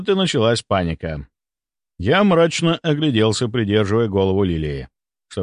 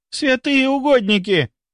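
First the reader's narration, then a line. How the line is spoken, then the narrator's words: Shocked exclamation. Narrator (Russian): воскликнула первая, увидев распухшее лицо Лилии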